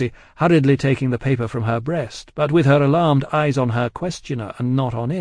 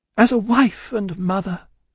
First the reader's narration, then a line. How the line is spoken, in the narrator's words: cried Lucy, most earnestly